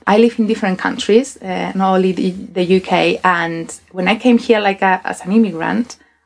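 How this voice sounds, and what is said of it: Spanish accent in English. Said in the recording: “I got a Spanish accent when I speak English”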